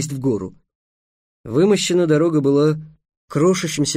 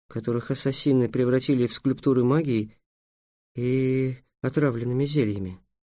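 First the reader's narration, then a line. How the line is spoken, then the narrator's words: Gloomy. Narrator (Russian): мрачно предположил Трикс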